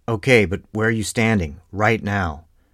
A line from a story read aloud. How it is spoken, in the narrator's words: Sepulveda shouted